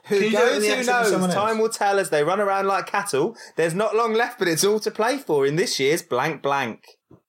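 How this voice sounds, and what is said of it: Put-on accent reading aloud. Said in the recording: “I'll do it once more in the accent.”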